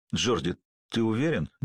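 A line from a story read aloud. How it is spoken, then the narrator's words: Suddenly hoarse question. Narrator (Russian): невольно спросил Зуга внезапно охрипшим голосом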